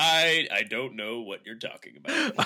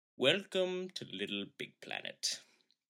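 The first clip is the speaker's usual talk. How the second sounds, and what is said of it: Exaggerated British voice, Will Ferrell Anchorman-like. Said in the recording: “just like I'm doing a British accent ... a little bit more Stephen Fry than he is ... your Will Ferrell impression from Anchorman”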